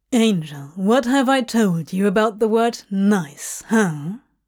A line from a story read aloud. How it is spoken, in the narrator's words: he drawled sarcastically